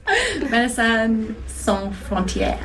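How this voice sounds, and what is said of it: Put-on French accent. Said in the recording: “I'm trying to do a French accent.”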